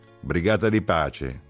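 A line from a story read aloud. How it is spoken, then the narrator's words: Someone shouting. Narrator (Italian): gridò qualcuno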